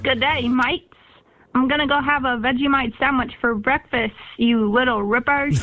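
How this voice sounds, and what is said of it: Put-on Australian accent. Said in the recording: “your best Australian accent ... when you speak of great Australian accents”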